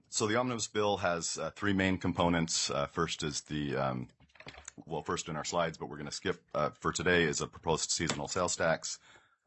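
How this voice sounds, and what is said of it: Lower voice from a cold. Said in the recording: “I've been kind of trying to get over a cold here, so my voice is a little lower than normal”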